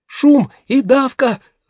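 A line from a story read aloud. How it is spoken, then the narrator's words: Shout. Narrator (Russian): закричала Гафса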